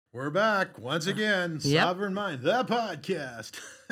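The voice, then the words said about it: Announcer-style radio voice. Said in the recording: “I just love doing my radio voice.”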